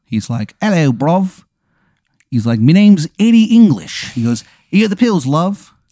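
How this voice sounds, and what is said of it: Bad put-on English accent. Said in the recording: “He's got a terrible English accent... Oh, it sounds bad.”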